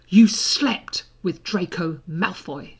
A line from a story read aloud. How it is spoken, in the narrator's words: she said furiously